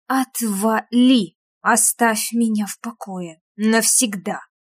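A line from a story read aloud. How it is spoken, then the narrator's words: Whispered growl. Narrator (Russian): рычали шепотом, потому что привлекать к себе внимание не хотели, то вы поймете, каким именно тоном это было сказано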